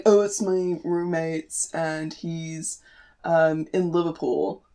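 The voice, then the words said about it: Half-hearted, poor put-on accent. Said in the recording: “That was a terrible accent,... I was half committing. I was half committing to it, so it didn't really work.”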